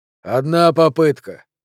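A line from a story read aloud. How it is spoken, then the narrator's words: Muttering under breath. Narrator (Russian): Сабетини бормотал себе под нос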